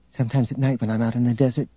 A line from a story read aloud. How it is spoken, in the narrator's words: Tenenyul said softly